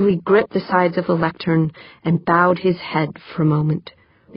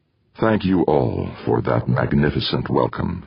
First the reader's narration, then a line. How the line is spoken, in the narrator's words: he said, his voice low as if choked with emotion